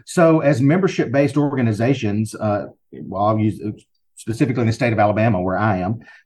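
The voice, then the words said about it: Southern US accent. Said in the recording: “if you can't tell by my accent, I'm sure you can. You knew it was somewhere in the South”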